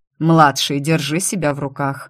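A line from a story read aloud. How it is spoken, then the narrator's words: Stern reprimand. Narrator (Russian): строго выговорил мистер Зло сыну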